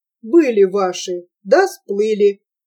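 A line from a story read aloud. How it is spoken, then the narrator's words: Deep angry voice. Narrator (Russian): пробасил, и пучеглазое лицо его сделалось злым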